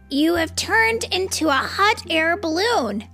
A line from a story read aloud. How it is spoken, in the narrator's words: exclaimed George